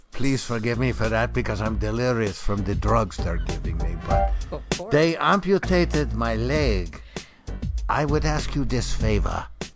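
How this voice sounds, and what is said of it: Put-on German accent. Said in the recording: “I know my accent is not very good”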